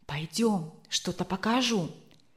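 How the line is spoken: Conspiratorial tone. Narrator (Russian): он заговорческим тоном сказал

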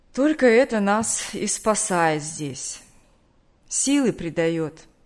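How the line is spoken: Tired. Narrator (Russian): устало сказал

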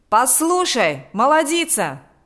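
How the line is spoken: Shouted. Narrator (Russian): закричал Миронов

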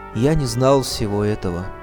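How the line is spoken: Sorrowful. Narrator (Russian): Учитель с тоской в голосе сказал

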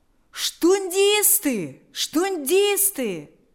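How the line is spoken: Crowd shouting. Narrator (Russian): закричали люди

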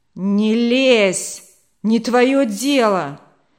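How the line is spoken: Menacing shout. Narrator (Russian): он грозно закричал

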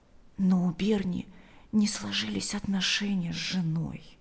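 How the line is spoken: Quiet. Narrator (Russian): добавила она тихо

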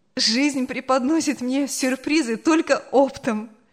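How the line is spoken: Laughing. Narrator (Russian): смеялась она

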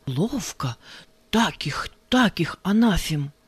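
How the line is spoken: Pleased whisper to oneself. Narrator (Russian): от удовольствия при каждом тексте или резкой выходке шептал про себя

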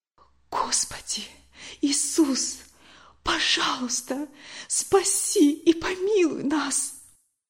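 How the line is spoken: Whisper. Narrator (Russian): прошептала

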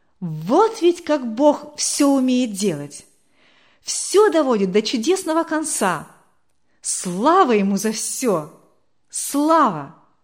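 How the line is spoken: Loud exclamation. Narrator (Russian): Валерий громко воскликнул

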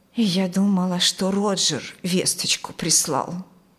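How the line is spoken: Quiet woman's voice. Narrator (Russian): тихо сказала она

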